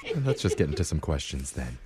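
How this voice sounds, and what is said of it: Soothing golf announcer voice. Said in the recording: “Are you trying to be a cricket announcer? ... It's the Masters. ... I do like talking like this, though. ... It is soothing. ... It's kind of nice. ... I'm going to talk in my normal voice.”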